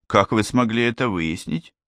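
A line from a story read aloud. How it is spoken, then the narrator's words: Plain. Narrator (Russian): спросил кто-то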